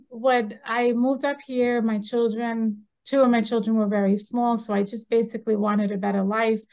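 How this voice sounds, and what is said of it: Long Island New York accent. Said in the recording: “I came from New York City, well, from Long Island. You can still tell the accent”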